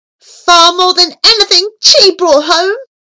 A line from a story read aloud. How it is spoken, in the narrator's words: cried triumphantly